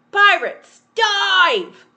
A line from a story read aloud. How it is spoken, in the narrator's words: Peter cried